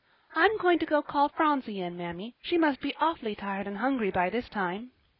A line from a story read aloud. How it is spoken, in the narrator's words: Polly said merrily